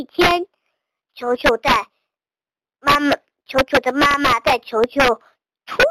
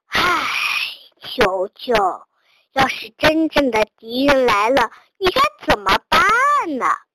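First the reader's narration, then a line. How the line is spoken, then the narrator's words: Sighing. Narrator (Chinese): 叹了口气，说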